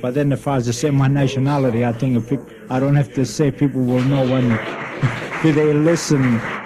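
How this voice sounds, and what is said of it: Italian accent. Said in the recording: “I think they know by my accent that I'm an import Italian.”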